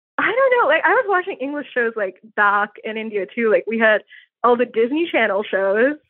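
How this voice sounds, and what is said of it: Americanized California Valley girl accent. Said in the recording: “People say I sound like a Valley girl. ... California in there for sure. ... There's California. ... There's no Boston in your accent.”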